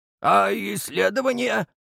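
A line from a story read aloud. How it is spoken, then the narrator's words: Upset voice, professor. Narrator (Russian): расстроенным голосом попытался остановить профессор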